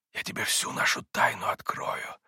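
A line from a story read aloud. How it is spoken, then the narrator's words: Hurried whisper. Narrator (Russian): зашептал спеша Митя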